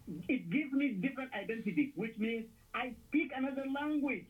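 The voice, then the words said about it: Non-native English accent. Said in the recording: “my English is broken ... my accent is not my weakness”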